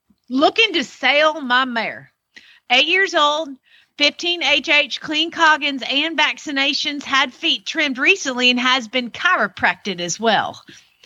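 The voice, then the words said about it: Rural Georgia Southern accent. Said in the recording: “You're going to hear it in the accent, because that's the way we roll down in the middle of nowhere, Georgia.”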